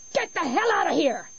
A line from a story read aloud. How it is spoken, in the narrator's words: Annie screamed